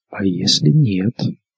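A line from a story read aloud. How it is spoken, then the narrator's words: Whisper. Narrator (Russian): прошептал чей-то голос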